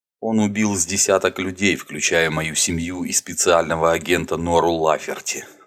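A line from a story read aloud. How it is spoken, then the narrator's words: Plain. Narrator (Russian): сказал он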